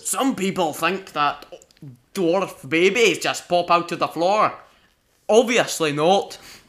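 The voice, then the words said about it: Imitates Gimli the dwarf's voice. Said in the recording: “Perfect voice imitation, by the way... your horrible accent”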